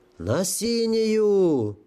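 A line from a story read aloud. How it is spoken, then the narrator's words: Howl. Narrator (Russian): взвыл кто-то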